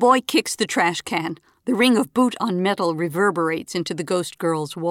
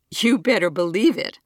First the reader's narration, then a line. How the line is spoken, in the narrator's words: Trevor laughs